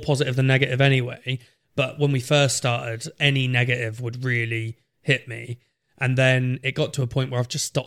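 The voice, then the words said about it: Norwich accent, slight rural twang. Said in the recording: “I'm a Norwich boy. I have a little farmer twang.”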